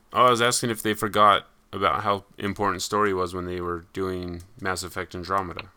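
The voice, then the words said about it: Flat monotone voice. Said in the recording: “It's my monotone voice.”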